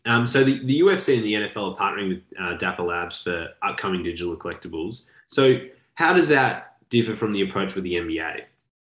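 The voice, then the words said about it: Australian accent. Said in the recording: “my accent... with an Australian T”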